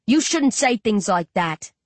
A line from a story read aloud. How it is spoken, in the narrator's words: Shane barks